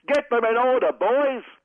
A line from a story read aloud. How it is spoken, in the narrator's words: But this officious steward yelled